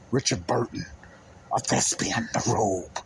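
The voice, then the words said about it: Bad Richard Burton impression. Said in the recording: “Oh, bad, bad impersonation.”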